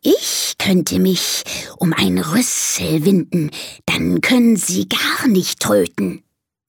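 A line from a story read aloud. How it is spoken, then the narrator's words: Snake hissing. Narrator (German): zischt die Schlange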